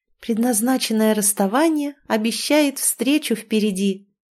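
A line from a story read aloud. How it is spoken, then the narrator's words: Ringing voice, declaiming. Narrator (Russian): Звенящим голосом Инна напоследок продекламировала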